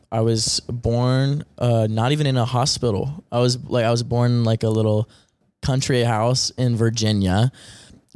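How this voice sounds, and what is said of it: Slight southern twang. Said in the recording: “Grew up with like a little southern accent. I might still have a southern accent. ... I can hear it a twang? little bit.”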